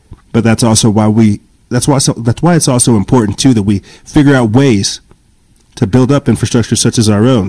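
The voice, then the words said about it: Speaks with a twang. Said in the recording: “my edge or my, my, my, my twang to it, my colorful taste”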